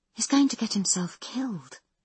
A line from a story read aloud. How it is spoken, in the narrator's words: whispers, sounding choked